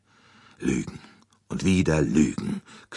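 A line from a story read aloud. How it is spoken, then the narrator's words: Bitter growl. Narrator (German): knurrte er erbittert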